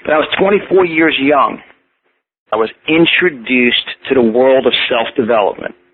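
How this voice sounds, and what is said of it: Strong New York accent. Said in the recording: “I do have a very strong New York accent.”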